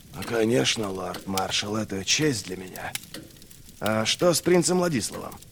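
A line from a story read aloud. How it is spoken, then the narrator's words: Quiet question. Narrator (Russian): Негромко спросил Берр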